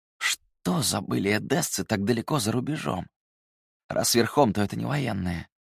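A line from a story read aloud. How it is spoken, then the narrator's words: Muttered. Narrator (Russian): Пробормотал он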